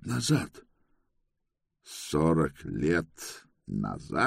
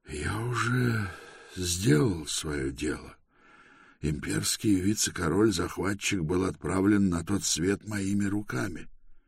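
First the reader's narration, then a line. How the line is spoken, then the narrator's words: Tired answer. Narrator (Russian): Бар устало ответил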